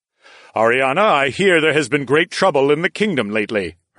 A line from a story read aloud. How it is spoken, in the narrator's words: her father said in the incredibly loud voice I now realized was his normal volume